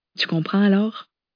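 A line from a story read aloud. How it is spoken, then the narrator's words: Sad, wife. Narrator (French): avait tristement renchéri sa femme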